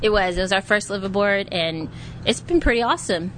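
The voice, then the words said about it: Texas accent. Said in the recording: “Harlingen, Texas. ... I recognize the accent, of course.”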